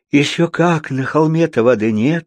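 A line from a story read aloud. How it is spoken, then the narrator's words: Bitter sigh. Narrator (Russian): горько вздохнула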